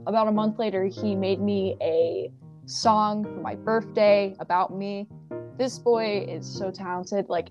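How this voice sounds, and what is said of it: Voice cracking with emotion. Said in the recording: “my voice is cracking even talking about him because i'm like so happy”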